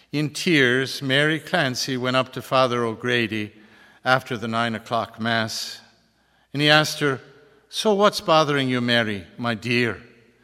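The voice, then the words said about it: Put-on Irish accent. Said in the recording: “my phony baloney Irish accent”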